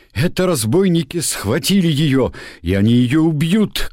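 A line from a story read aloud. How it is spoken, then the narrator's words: Shout. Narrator (Russian): крикнул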